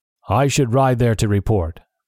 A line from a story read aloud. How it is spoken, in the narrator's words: the man said